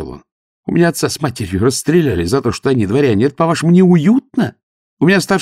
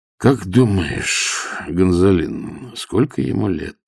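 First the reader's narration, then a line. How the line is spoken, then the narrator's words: Quiet question. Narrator (Russian): спросил негромко, но так, чтобы Митька слышал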